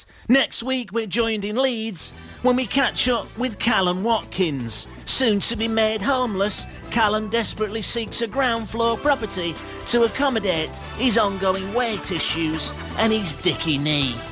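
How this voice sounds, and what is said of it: Generic put-on accent. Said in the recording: “I thought my accent was quite good this week. Wasn't too bad, was it? ... It's quite generic.”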